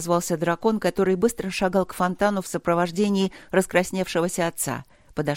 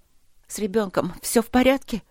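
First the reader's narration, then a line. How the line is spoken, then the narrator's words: Sobbing question. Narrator (Russian): всхлипнув, спросила Света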